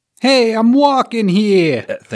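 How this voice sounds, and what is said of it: Put-on New York accent. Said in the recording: “we probably should start working on our New York accents”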